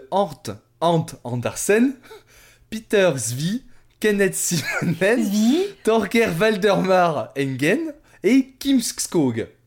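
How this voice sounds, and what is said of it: Put-on French-Norwegian accent. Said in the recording (French): “dans le meilleur accent franco-norvégien qu'il y a ... mon accent norvégien”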